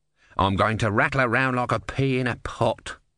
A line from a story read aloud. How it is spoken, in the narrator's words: grumbled the tortoise